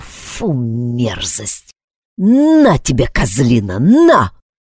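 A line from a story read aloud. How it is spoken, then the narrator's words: Growling man. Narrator (Russian): Мужик рычал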